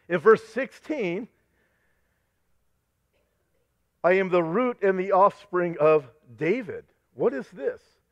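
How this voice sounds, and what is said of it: Strained, hoarse voice. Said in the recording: “I'm getting way too excited... and I'm losing my voice.”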